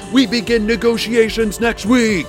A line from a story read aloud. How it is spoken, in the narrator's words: Hadassah shouted